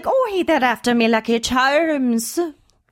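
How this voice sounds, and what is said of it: Irish leprechaun character voice. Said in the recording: “Do the Lucky Charms leprechaun. ... a little bit of Irish ... That's pretty close.”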